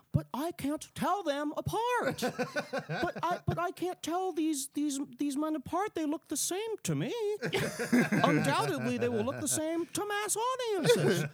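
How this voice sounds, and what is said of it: Impression of Grace Randolph. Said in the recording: “Let me channel my impression.”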